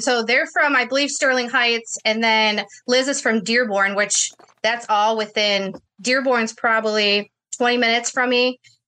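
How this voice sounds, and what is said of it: Michigan accent. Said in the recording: “You're from Michigan with that accent ... you guys sound very Michigan-like”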